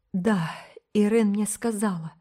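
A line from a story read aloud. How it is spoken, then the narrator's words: Strained, choked voice. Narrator (Russian): ответила Рила сдавленным голосом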